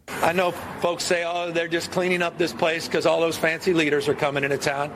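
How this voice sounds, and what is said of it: Put-on Southern accent. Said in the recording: “affect a southern accent when he said fancy leaders”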